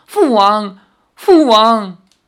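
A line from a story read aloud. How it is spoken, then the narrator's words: Choked tearful sobbing. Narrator (Chinese): 泪水不断随之滑落，哽咽着说不出话来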